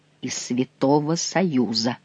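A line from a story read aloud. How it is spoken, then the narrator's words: Undertone. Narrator (Russian): вполголоса сказал Бернуйе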